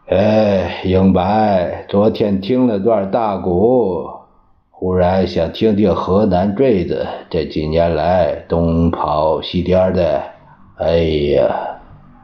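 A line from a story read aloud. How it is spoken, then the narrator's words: Sighing. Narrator (Chinese): 蒋介石……叹了一口气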